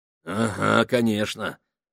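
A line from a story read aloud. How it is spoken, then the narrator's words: Grumbling. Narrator (Russian): проворчал Гослинг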